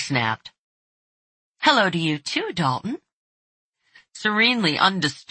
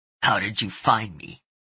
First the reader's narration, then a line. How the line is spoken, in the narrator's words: He asked roughly